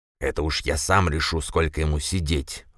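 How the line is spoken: Old man growling. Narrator (Russian): рыкнул на него старик

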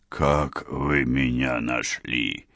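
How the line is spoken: Whistling voice question. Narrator (Russian): Своим свистящим голосом спросил кудесник

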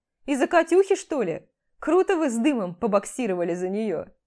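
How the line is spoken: Amused snort. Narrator (Russian): хмыкнул

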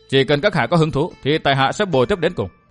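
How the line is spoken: Cold reply. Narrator (Vietnamese): Địch Tuân lạnh lùng đáp lại

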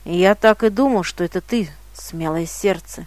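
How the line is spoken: Soft, gentle. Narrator (Russian): мягко сказал магиканин

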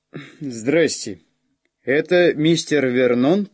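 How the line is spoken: Deep bass over phone. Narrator (Russian): пробасил кто-то на другом конце провода

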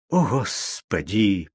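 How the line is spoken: Whisper. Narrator (Russian): прошептал он

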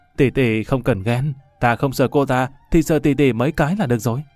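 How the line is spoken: Gleeful. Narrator (Vietnamese): Lâm Văn Vinh hớn hở

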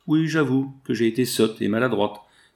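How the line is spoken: Enraged woman sneering. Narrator (French): ricana l'enragée femelle

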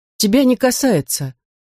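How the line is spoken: Somewhat uncertain reply. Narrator (Russian): ответила она несколько неуверенно

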